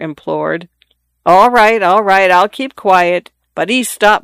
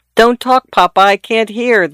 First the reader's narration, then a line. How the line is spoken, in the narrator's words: the daughter exclaimed tartly